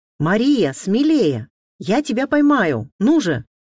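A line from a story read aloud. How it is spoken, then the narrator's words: Shout. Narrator (Russian): крикнул он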